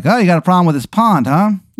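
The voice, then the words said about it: Exaggerated bad Maryland accent. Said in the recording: “This guy has the worst Maryland accent you've ever heard in your life.”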